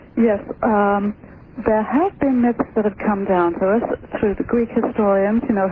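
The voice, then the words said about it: English accent. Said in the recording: “Your English accent is going to be every now and then.”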